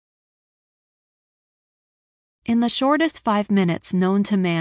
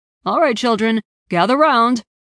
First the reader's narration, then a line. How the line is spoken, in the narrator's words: Piers barked